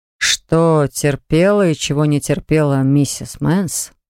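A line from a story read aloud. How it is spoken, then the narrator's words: Raised nasty nasal voice. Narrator (Russian): Повысив противный гнусавый голос, заявил ревизор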